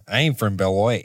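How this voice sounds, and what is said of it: Put-on Wisconsin accent. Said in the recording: “snap into a Wisconsin accent”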